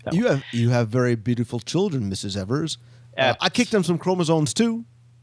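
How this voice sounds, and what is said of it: Imitates another person's voice. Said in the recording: “That was my Eddie Murphy. ... Was that an Eddie Murphy impression?”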